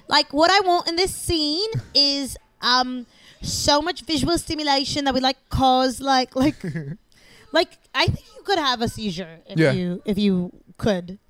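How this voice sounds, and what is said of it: Attempted Australian accent, imitating a director. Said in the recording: “Could I be Baz Luhrmann for the rest of this podcast? ... I don't know how to do Australian accent.”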